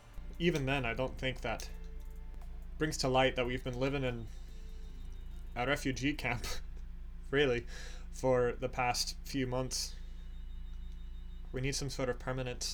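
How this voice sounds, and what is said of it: Put-on Irish-sounding accent. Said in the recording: “I'm doing that freaking Irish accent again ... I am still trying to do Scottish.”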